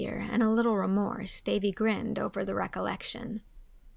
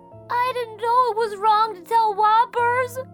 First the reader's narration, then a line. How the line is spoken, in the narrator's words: he sobbed